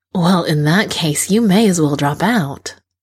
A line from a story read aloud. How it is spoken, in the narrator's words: the doctor drawls